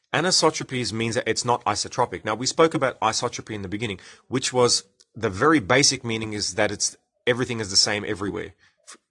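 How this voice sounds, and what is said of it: English accent. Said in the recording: “you hate the English accent”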